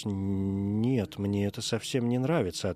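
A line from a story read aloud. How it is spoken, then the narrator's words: Plain. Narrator (Russian): ответил он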